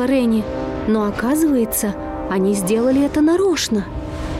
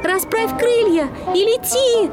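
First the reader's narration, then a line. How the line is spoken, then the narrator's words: Shout. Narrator (Russian): закричала ему Ренни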